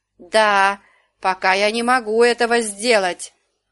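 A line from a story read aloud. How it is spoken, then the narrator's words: Wailing woman. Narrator (Russian): взвыла она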